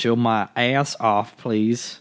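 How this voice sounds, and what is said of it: Put-on Southern American accent. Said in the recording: “I did a southern accent”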